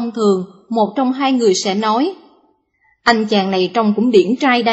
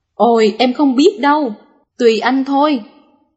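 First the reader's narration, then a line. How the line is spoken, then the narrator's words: Woman laughing loudly. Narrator (Vietnamese): Người vợ cười to và nói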